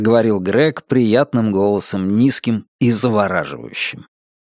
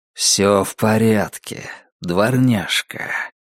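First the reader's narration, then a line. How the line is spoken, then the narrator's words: Low, mesmerizing voice. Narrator (Russian): произнес он все тем же низким и завораживающим голосом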